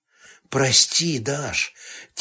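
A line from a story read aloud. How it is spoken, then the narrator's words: Quiet apology. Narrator (Russian): Тихо вымолвил Сташевич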